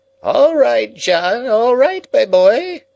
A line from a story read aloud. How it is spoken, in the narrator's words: piped the old man from within